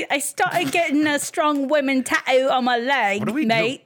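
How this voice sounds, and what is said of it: Put-on accent. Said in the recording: “I don't know why this is the accent episode.”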